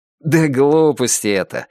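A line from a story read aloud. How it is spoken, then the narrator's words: Laughing. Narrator (Russian): рассмеялся Илья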